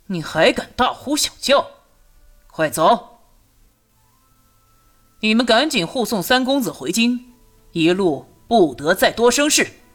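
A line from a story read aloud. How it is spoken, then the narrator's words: Deep, stern voice. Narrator (Chinese): 朱瑜沉声道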